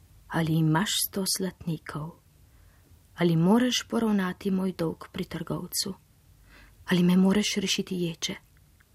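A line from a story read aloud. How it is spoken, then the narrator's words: Sighing, weary. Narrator (Slovenian): Ribič je vzdihnil in rekel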